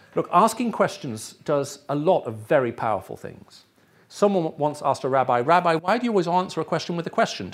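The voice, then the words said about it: English accent, BBC World Service style. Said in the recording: “people often ask me where my English accent comes from ... This is the voice of the BBC World Service. So that's where I got my English accent”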